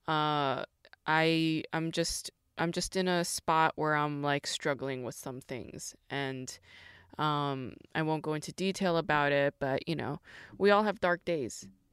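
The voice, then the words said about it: Weird, low-energy voice. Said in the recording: “My voice is a little weird. My energy is low.”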